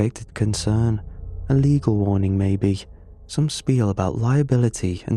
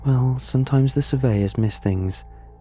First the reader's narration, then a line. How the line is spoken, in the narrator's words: she sighed